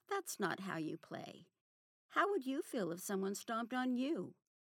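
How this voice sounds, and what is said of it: Sweet, patient teacher voice. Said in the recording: “in my best kindergarten teacher voice”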